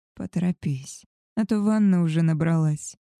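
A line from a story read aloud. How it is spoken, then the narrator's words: Hoarse excited whisper. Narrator (Russian): хрипло прошептал Альфа, с волнением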